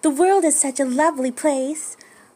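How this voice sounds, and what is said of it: Cutesy anime girl voice. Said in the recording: “in an anime girl voice”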